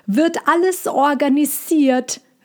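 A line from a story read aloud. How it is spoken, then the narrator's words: Calling upward. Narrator (German): rief Cassandra nach oben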